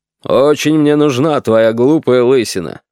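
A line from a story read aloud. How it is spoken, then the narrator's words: Grumbling. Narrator (Russian): ворчал Аркадий Ильич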